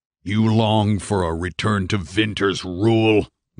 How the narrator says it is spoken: Madigan snarled

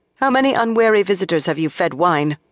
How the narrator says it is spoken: Moiraine asked coldly

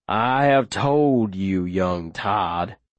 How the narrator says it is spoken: he says, his voice low and monstrous, his noise glowering at me with a fury so pure

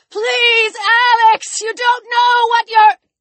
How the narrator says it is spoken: He shouted

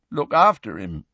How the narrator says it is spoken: said Hagrid croakily

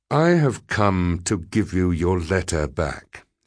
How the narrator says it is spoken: he said

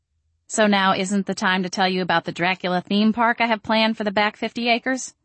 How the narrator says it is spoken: I asked brightly

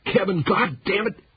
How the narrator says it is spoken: bawled

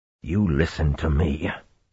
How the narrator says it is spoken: he said calmly

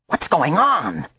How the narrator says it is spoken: cried

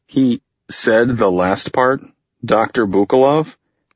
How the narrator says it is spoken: She laughed, a rare sound from her

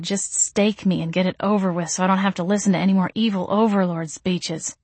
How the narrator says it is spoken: I grumbled under my breath

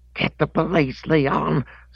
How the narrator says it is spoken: screamed the old lady

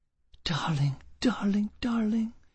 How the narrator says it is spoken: whispered

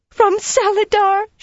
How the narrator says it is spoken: squealed

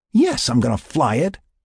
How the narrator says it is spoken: Tony exclaimed

